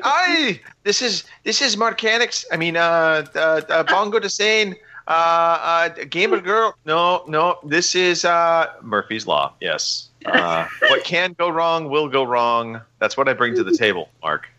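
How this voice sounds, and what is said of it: Put-on Irish accent. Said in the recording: “Let me try and do my best Lucky Charms accent. I mean, Irish accent.”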